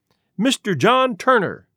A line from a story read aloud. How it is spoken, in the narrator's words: cried